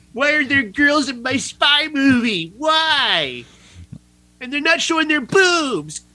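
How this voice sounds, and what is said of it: Imitates a group of complaining viewers. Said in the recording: “That was a perfect impression of them.”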